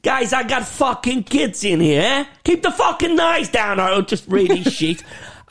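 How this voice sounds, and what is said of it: Dodgy put-on Brooklyn New York accent. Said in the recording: “a dodgy fucking Brooklyn, New York accent”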